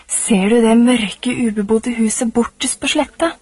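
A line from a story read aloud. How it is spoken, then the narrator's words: Plain. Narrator (Norwegian): sa han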